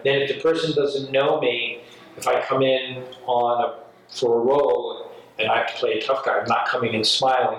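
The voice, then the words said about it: New York accent. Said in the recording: “this New York guy with a New York accent”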